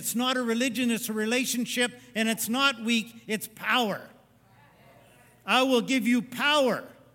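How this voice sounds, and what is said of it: Shouting, excited preaching. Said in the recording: “you're shouting again, Dad. I'm shouting”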